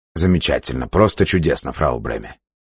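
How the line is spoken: Muttered. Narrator (Russian): пробормотал Лавкач

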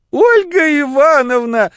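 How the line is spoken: Breathless excited shriek. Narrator (Russian): взвизгнула она, тяжело дыша от волнения

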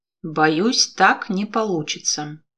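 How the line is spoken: Gloomy. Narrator (Russian): мрачно добавил Гордин

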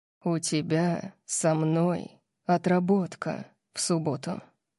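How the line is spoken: Deadly purr in ear. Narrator (Russian): сказал Орион мне на ухо, голосом убийственного мурлыканья

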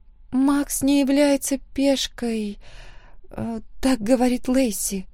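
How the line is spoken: Thoughtful mutter. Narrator (Russian): задумчиво пробормотала Эмма

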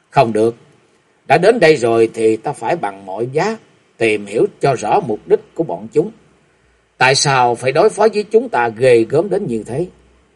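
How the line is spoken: Soft. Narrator (Vietnamese): Tiểu Út lúc này khẽ nói

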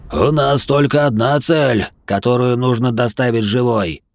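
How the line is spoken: Monster's guffaw. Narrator (Russian): хохотал монстр с косой

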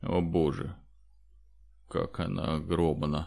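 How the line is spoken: Fearful muttering. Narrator (Russian): в страхе пробормотал Федор

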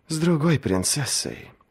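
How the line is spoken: Sighing. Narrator (Russian): вздохнула

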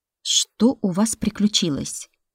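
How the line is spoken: Plain. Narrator (Russian): спросила Элизабета Витольдовна

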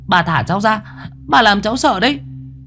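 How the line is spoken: Shout. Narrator (Vietnamese): Tôi hét lên

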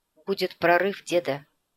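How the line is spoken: Sigh. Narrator (Russian): вздохнул Николай

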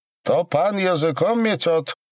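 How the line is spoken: Loud question. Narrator (Russian): спросил громко

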